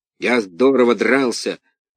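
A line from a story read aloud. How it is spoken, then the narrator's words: Rough voice. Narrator (Russian): грубым голосом сказал он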